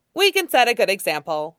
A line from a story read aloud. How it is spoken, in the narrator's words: Nie Huaisong chirped